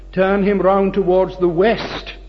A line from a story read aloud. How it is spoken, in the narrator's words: cried the crowd